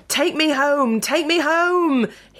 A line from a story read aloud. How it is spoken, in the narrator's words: shouted